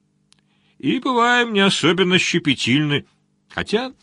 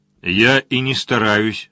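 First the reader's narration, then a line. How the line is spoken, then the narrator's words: Plain. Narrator (Russian): сказал капитан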